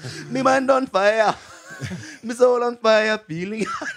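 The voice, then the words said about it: Sebastian from Little Mermaid accent. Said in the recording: “You were Sebastian from Little Mermaid? Yeah. Didn't it Sebastian have an accent? ... Yes.”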